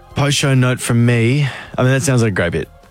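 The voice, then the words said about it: Sarcastic, hard-to-read tone. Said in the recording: “I feel like that was sarcastic. ... Your tone hard to read sometimes, but I feel like that was sarcastic.”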